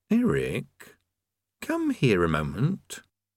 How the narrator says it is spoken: Then he said quietly

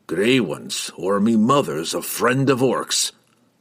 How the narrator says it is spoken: Brunner grumbled

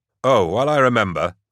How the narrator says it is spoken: Gaunt said

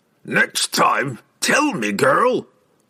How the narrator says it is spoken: Brunner roared at Catterby and spitted sand with every word

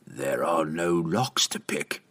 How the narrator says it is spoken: Treri snarled

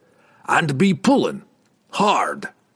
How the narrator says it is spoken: the dwarf roared

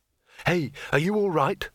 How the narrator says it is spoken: said Rincewind urgently

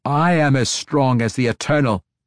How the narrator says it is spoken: Quenthal snapped back

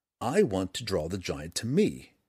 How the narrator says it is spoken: Drizzt said again, more firmly

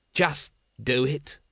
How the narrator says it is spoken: he snapped

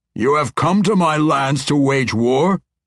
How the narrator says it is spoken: Neverember lived up to his short-tempered reputation then, yelling

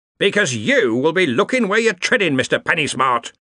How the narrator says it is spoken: roared Ridcully

